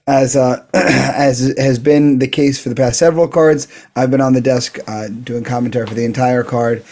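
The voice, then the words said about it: Voice sounds a little off. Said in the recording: “you can probably hear my voice a little off this week... My voice is still not recovered”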